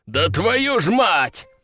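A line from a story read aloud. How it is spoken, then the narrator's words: Growled. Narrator (Russian): рыкнул мужчина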